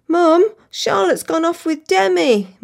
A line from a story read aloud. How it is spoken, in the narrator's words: my daughter sobs